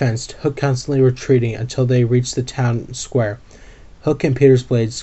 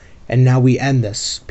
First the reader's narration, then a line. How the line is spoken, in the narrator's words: Peter growled